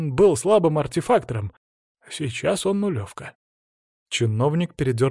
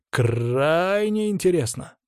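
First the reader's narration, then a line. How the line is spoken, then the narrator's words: Drawl. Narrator (Russian): протянул я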